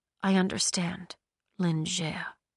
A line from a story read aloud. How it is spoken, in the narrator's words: she whispered